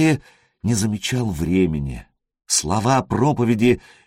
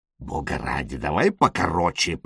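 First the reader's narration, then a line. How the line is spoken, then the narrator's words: Mumbling. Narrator (Russian): пробормотал Элис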